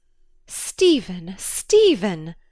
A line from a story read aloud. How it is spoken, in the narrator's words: she cried, as though to drown the blasphemy on his lips